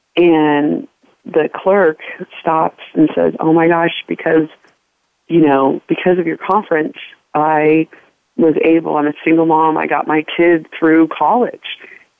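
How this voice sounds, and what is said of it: Choked up, emotional voice. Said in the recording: “I'm getting choked up even thinking about it”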